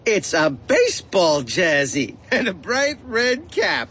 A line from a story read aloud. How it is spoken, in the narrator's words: giggled Freddie